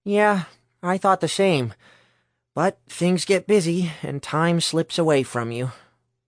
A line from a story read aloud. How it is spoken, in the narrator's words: Herschel sighed